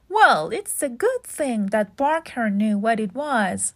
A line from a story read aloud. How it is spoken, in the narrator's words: laughed the editor